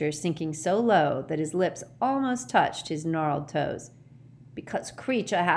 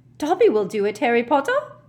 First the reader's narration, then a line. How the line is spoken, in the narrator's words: squeaked Dobby, his tennis ball-sized eyes still swimming in tears